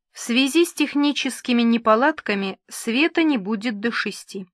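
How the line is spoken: Plain. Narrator (Russian): сказал он

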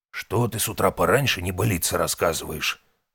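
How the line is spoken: Creaky voice. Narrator (Russian): раздался скрипучий голос шептуна

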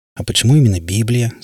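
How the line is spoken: Plain. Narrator (Russian): спросил Дэвид

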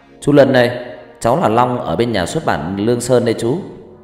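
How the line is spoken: Loud calling. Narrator (Vietnamese): Anh lại tiếp tục cao giọng gọi lớn

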